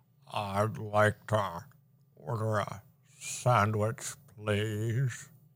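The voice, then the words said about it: Imitates another person's voice. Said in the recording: “your Mitch McConnell impression... you ready for mine?”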